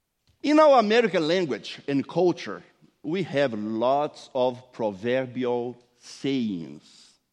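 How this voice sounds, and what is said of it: Noticeable non-native English accent. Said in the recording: “don't think that I have a hard accent. I just speak a different English.”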